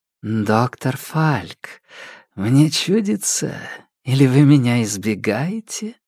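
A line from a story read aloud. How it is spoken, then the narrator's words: Languid husky voice from behind. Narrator (Russian): Раздался за спиной знакомый голос с томной хрипотцой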